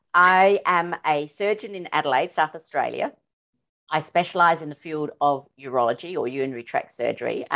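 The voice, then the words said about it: Australian accent. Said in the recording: “all the way from Australia ... I'm going to be so excited about your accent all show”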